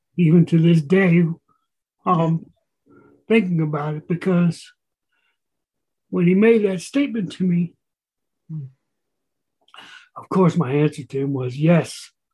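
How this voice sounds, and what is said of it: Emotional, choked-up voice. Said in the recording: “I still get emotional.”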